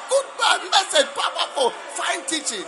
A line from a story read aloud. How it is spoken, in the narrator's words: He shouted